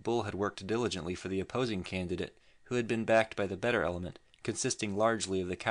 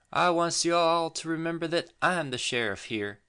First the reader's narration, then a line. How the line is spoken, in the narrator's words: he cried